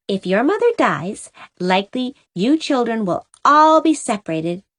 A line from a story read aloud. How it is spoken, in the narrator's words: said Cora cheerfully